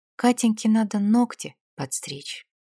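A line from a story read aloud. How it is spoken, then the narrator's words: Quiet sad remark. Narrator (Russian): грустно наблюдая за ее игрой в куклы, тихо заметил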